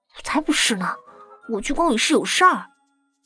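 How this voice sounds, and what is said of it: Quiet, hushed speaking. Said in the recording (Chinese): “小声说道”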